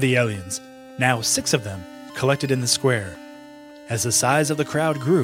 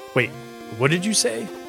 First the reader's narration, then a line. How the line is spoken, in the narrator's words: said Abigail